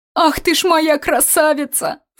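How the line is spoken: Sobbing. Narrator (Russian): всхлипнула Алевтина

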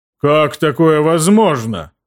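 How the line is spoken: Booming drone. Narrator (Russian): прогудел он

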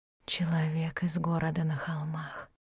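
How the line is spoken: Whisper. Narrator (Russian): прошептала она

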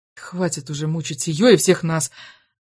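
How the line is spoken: Quiet reply. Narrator (Russian): тихо ответила она

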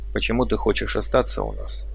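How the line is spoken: Plain. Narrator (Russian): спросил я ее

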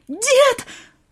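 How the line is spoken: Girl's shocked cry. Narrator (Russian): вскрикнула девчонка, увидев лежавшего в луже крови бездыханное тело Кузьмича

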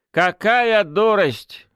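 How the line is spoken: Snorting. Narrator (Russian): хмыкнул Михей

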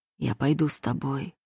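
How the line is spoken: Quiet. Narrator (Russian): говорит тихо

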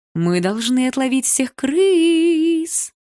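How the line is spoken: Singsong. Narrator (Russian): нараспев сказала Малиновская

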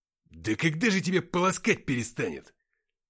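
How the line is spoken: Barking shout. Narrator (Russian): рявкнул Уфимцев

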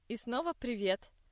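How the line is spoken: Joyful singing. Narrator (Russian): Радостно поет Зои

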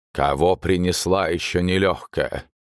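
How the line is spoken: Booming bass behind door. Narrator (Russian): Раздалось из-за двери зычным басом

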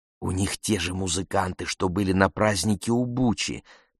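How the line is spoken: Whisper. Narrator (Russian): прошептала Коси

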